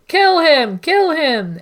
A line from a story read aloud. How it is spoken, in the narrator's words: Egg was demonstrably distressed as soon as Aerion appeared, even shouting